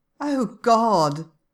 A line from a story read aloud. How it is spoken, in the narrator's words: Darcy groans